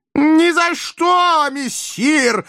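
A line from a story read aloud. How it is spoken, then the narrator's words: Yelling. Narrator (Russian): заорал кот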